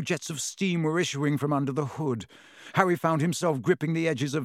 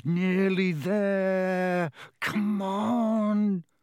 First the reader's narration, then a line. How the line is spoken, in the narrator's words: The engine groaned